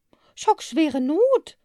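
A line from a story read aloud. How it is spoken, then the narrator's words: Calling out. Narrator (German): rief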